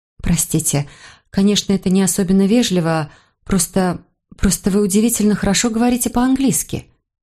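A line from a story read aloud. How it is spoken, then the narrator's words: Slightly stammering. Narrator (Russian): сказала я, немного запинаясь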